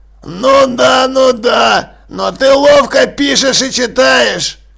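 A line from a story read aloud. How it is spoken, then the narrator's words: Grumbling. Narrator (Russian): проворчал Джекрам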